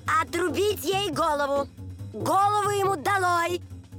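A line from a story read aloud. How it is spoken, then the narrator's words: Furious repeated shouting. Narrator (Russian): королева пришла в бешенство, то и дело кричала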